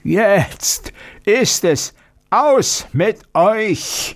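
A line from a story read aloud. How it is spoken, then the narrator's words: Roaring monster. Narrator (German): brüllte das Ungeheuer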